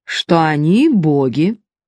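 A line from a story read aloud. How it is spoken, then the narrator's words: Calm reply. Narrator (Russian): спокойно ответил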